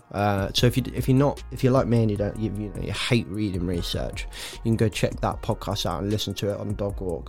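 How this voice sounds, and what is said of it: Nasal, congested voice. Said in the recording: “I sound really nasally. I feel like I sound really nasal. ... Recovering from a bit of a Christmas cold, New Year cold.”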